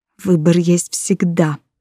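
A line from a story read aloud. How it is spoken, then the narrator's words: Whisper. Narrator (Russian): прошептала я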